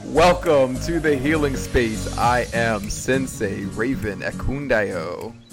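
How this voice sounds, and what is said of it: Booming announcer-style voice. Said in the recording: “you're like announcer voice this week. Not even like your regular like loud projecting voice ... Am I about to announce a boxing match or something?”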